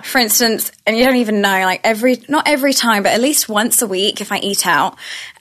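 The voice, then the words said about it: Strong British accent. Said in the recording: “strong British accent”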